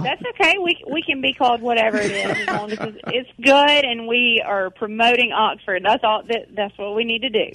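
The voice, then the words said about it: Local Oxford regional accent. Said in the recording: “I love that accent. You sound like a straight, Oxford?”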